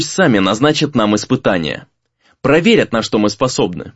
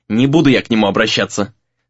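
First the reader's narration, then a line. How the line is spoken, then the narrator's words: Snapping back. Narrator (Russian): снова огрызнулся товарищ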